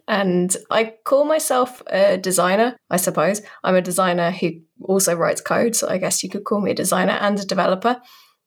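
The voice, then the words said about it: British accent. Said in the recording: “I'm a British person, in case you couldn't tell by the accent.”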